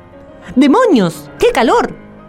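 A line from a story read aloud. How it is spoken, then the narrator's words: Exclamation. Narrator (Spanish): exclamó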